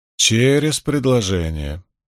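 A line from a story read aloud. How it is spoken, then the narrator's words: Grumbling. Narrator (Russian): проворчала Найниф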